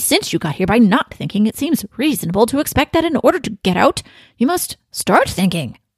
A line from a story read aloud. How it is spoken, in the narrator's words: continued the watchdog impatiently